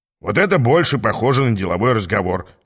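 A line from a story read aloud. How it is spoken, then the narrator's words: Chuckling. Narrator (Russian): хохотнул Аас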